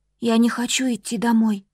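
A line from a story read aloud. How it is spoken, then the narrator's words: Sudden whisper. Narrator (Russian): вдруг прошептала Ери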